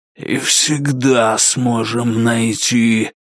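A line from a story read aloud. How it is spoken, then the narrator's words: Hiss. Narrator (Russian): прошипел Вандемар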